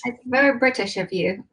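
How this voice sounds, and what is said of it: Bad put-on English accent. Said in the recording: “That was the worst English accent ever, but I did give it a try.”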